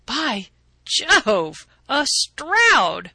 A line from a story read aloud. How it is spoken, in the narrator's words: I cried